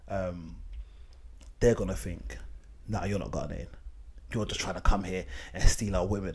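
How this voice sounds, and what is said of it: British accent. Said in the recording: “I've got a British accent”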